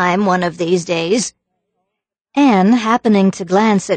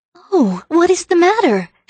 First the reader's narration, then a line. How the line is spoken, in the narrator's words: She cried anxiously